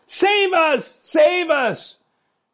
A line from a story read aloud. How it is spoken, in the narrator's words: his followers shout the dangerously provocative